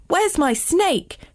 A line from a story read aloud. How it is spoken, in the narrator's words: shouted Jasper